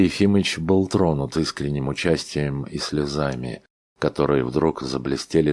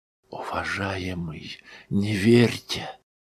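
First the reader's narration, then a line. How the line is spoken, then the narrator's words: Earnest whisper. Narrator (Russian): зашептал он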